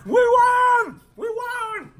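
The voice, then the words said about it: Muppet-like cartoonish voice. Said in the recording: “your Muppet impersonation”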